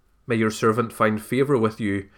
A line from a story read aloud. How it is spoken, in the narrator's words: she replied